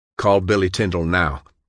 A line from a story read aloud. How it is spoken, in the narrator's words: John snapped